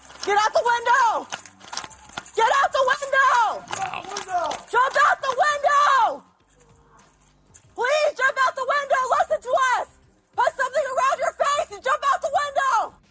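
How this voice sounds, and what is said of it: Urgent screaming. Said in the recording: “We're screaming”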